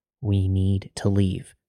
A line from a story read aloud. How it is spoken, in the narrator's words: quietly but sternly said